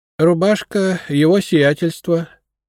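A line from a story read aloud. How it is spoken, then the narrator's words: Unhappy voice. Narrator (Russian): несчастным голосом сказала Прасковья Ивановна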